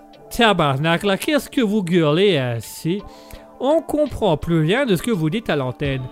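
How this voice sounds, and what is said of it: Put-on Québécois French accent. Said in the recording (French): “le Québécois avec son accent”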